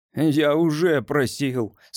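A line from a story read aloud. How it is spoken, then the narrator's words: Dejected. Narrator (Russian): сказал журналист уныло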